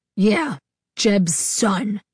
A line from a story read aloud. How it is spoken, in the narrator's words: he snarled